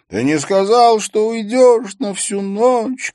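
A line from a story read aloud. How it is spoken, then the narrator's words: High-pitched sobbing cry. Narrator (Russian): крикнул один из них тонким голосом, задыхаясь от слез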